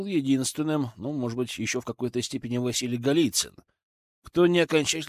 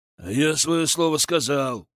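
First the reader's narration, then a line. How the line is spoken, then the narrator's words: Growling. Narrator (Russian): прорычал Иван Хованский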